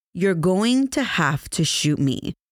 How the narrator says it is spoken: told him in an even voice

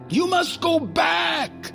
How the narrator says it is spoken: Skullbone cried

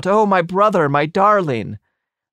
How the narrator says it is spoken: So then his sister flung herself over him and cried out

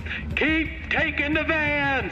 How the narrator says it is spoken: Lux yells into his microphone

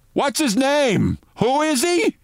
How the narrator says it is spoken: Rudy Giuliani, into a microphone that picked up everything he said, said loudly

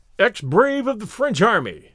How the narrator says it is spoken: cried, in a mad state of exhilaration

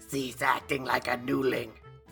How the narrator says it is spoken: Galeb spat back

